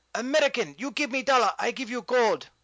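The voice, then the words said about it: Put-on Chinese accent, broken English. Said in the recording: “do an impression of a Chinese gold farmer”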